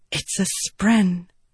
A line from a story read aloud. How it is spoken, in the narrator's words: Shallan whispered